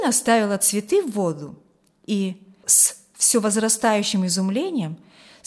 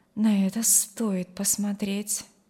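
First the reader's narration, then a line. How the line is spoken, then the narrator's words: Quietly added. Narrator (Russian): добавила тихо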